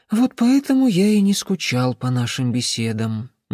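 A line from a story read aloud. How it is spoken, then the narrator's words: Sigh. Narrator (Russian): Никола вздохнул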